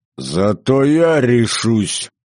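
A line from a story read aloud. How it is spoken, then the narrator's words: Barked. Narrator (Russian): рявкнул Иван Васильевич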